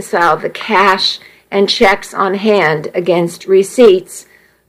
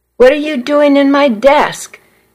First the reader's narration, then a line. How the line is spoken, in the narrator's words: Miss Weaver demanded in a loud voice